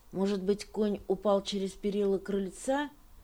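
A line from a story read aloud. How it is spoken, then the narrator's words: Plain. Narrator (Russian): сказала она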